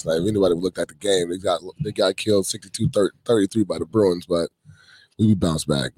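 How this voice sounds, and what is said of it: Slightly hoarse voice. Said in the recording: “You guys can hear my little voice a little hoarser tonight, but it's because I was yelling at them damn Trojans yesterday”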